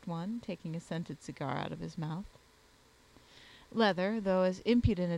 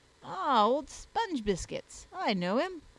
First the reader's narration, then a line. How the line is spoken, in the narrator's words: exclaimed a youth